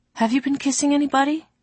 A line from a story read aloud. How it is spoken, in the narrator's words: she asked without meaning to, and gasped